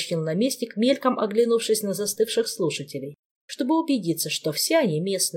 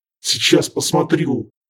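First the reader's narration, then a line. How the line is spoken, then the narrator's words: Angry snap. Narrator (Russian): зло огрызнулся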